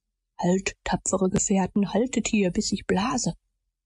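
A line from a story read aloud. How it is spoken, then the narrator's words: Whispering man. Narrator (German): flüsterte er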